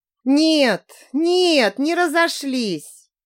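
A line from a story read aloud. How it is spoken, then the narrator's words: Sighing. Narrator (Russian): вздохнула я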